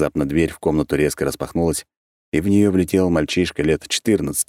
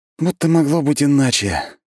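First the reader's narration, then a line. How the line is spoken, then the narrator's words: Heavy sigh. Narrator (Russian): Тяжело вздохнул я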